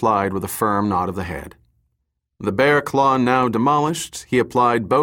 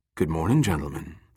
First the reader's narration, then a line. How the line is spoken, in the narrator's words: the three-dimensional image murmured